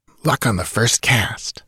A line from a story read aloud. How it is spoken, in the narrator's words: murmured Taurus